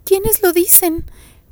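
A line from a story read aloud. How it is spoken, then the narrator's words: Offended, superior tone. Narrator (Spanish): preguntó en un tono ofendido de superioridad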